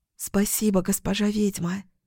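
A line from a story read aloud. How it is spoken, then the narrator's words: Whisper. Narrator (Russian): прошептала она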